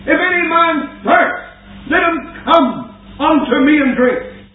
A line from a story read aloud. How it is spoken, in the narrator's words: Jesus stood and cried